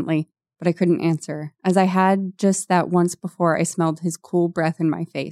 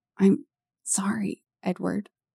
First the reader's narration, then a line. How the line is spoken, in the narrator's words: I whispered